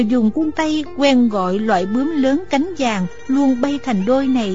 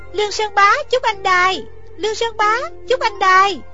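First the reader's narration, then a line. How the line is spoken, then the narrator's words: Crying out. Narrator (Vietnamese): Thích Phương kêu lên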